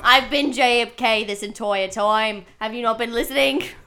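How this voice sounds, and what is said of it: Put-on Australian-sounding accent. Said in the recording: “Wow, you're Australian now.”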